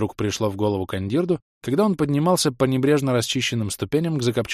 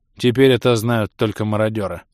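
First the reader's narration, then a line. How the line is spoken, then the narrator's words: Gloomy. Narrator (Russian): мрачно сообщил Бенг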